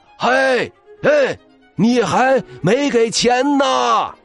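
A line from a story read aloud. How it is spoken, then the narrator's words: Shouting. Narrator (Chinese): 老狼的叫喊声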